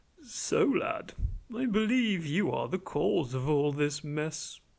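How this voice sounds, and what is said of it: Posh British accent. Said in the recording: “In a somewhat more normal and posher Bohemian British accent”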